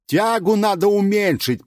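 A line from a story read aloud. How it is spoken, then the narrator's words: Shouted. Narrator (Russian): прокричал мне кто-то, очень похожий на великого изобретателя странных приспособлений Леонардо да Винчи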